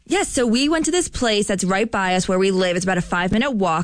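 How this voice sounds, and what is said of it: New Jersey accent. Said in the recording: “is from New Jersey, so you hear a lot of Jersey accent popping on the show.”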